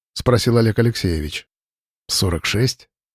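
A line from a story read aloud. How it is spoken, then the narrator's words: Calm reply. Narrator (Russian): спокойно ответил Саров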